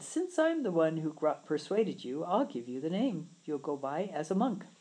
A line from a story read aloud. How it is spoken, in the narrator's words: laughed with him and replied